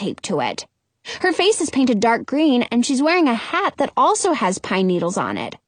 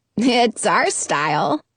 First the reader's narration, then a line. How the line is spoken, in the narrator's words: the girl says and laughs